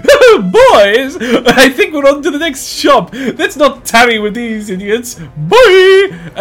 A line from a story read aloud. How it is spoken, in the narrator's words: the presenter gets closer and says